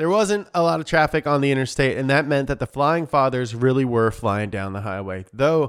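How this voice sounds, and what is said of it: Usual voice. Nothing is said of it.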